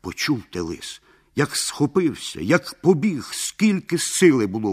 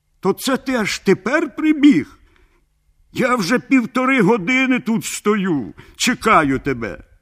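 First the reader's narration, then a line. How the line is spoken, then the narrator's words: Shouted. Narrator (Ukrainian): як закричить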